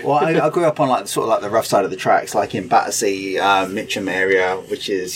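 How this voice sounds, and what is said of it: South London English accent, slight twang. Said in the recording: “I was going to say East End, Essex, or Basildon ... south to London ... You've got a little twang now in your accent.”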